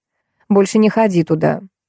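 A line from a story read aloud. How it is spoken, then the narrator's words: Unexpectedly calm. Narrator (Russian): неожиданно спокойно сказала Тина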